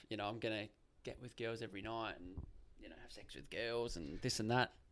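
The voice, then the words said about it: Whispering. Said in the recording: “you're whispering, yeah, even though you're on a microphone... I'm whispering”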